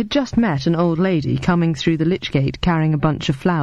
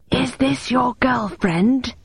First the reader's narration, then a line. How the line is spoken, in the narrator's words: said in a hoarse whisper